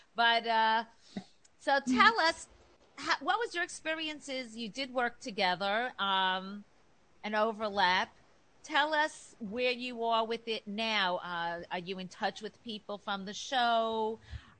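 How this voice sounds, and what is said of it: New York accent. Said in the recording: “I have this New York accent.”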